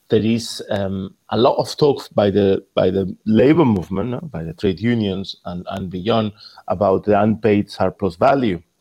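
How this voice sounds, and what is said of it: Spanish accent speaking English. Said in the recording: “In Spain, where I'm from, you can gather by my accent”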